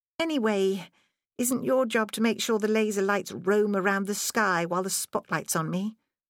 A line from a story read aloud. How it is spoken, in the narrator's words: Scott sighed